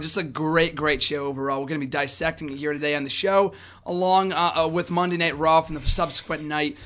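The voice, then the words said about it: Hoarse, strained voice. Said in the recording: “if you couldn't already tell, I lost my voice on Sunday. RJ can attest to it. I lost my voice”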